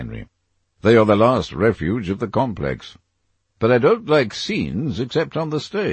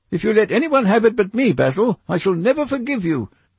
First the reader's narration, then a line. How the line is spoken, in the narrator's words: cried Dorian Gray